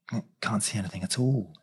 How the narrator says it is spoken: he muttered at last

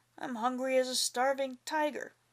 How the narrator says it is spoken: he growled

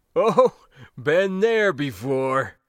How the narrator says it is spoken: the old man laughed

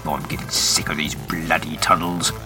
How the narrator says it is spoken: grumbles

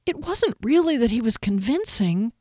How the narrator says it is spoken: Fennel pleaded

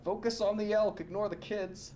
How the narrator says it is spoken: he shouts out

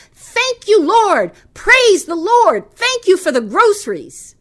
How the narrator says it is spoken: she shouted

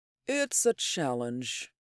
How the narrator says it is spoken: he said softly

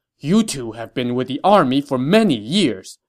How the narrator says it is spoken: Cao Cao said angrily

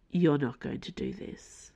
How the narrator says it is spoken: said Auden, in a low voice

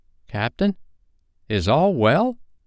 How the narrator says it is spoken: they asked timidly

